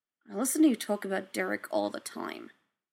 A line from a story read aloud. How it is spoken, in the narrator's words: Scott mumbled into Styles' ear right before he passed out